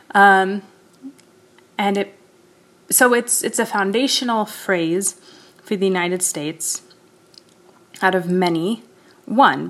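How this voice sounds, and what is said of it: American accent. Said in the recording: “in case you couldn't hear from my accent or voice, that is indeed where I'm from... the United States”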